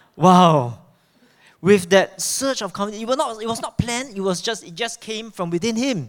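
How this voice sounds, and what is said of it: Usual voice. Nothing is said of it.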